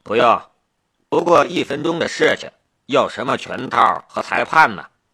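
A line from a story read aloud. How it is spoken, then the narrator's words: Cool, indifferent. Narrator (Chinese): 夏雷淡淡的道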